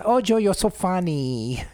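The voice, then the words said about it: Put-on accent. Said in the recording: “I don't like the accent.”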